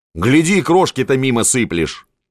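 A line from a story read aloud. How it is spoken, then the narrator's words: Barked. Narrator (Russian): гаркнул на нее Апухтин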